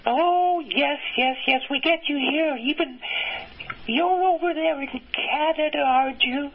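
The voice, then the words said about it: Slight British accent. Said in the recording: “you have a bit of a British accent”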